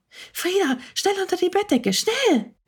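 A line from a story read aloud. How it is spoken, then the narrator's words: Excited whisper. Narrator (German): flüsterte Maya ganz aufgeregt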